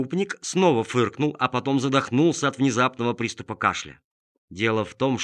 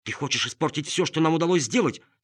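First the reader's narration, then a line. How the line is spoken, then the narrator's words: Angry hiss. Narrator (Russian): сердито зашипела редиска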